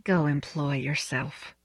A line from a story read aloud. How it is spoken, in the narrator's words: told him, very quietly